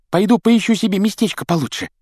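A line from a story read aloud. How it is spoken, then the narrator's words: Squeaky voice. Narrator (Russian): пропищал ему в спину Колин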